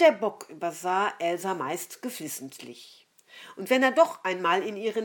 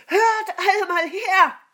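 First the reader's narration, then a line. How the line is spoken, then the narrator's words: Called out. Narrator (German): rief sie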